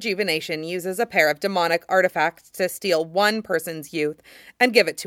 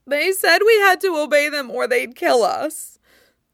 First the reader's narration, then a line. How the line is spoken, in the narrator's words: one of the servants sobs